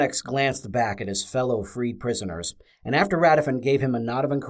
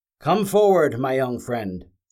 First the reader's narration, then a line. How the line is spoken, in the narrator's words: Aceris called out